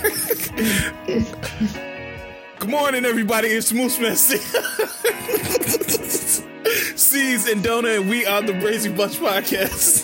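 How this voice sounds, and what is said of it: Failed, laughing impression of Envy. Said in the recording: “I was trying to do the voice, but I can't do it. It made me laugh too much... You was trying to do Envy voice?... I was trying to freaking like Envy.”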